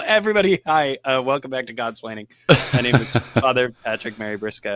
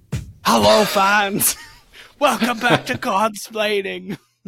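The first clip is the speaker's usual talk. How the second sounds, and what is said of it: Poor imitation of another person's voice. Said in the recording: “It's like the world's worst Harry Carey impression. I'm so sorry.”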